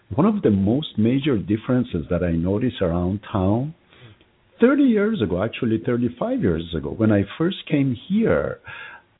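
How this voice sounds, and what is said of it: Non-native English accent. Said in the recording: “you obviously know I was not born here because of my accent”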